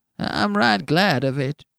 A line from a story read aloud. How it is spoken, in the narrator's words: whined the old man